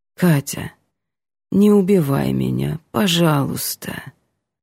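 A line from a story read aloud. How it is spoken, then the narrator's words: Tired, quiet, human plea. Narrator (Russian): просит устало и тихо, и очень по-человечески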